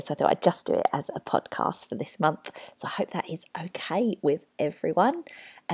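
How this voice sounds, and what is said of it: Congested, unwell-sounding voice. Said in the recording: “you might be able to hear in my voice. I'm not feeling my very, very best... my snotty, runny nose”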